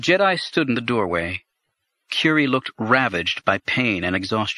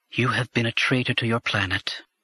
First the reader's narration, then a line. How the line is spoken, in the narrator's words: she said in a flat voice to her brother